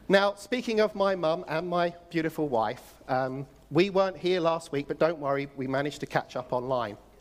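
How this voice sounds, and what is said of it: Non-local accent. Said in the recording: “You may have noticed from my accent, I'm not from around here.”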